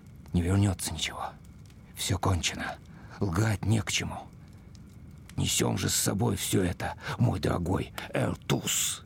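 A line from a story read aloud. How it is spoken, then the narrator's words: Mutter. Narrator (Russian): Опять он пробормотал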